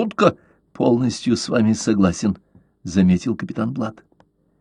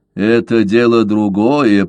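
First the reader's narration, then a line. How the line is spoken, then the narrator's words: Grumbled. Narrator (Russian): проворчал Каузак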